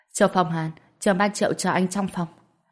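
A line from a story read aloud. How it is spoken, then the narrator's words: Polite, smiling. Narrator (Vietnamese): anh ta khách khí thoáng mỉm cười, nói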